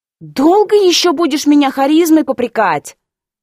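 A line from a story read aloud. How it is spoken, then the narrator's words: Angry snap. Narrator (Russian): Зло огрызнулась друидка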